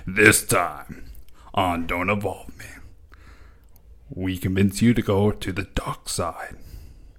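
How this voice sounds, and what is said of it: Epic dramatic announcer voice. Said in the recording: “in his epic voice”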